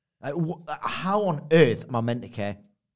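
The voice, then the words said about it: Raised, louder voice. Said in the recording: “raising my voice.”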